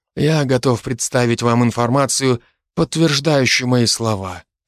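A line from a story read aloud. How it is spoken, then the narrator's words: Calm voice. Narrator (Russian): произнес арбитр спокойным голосом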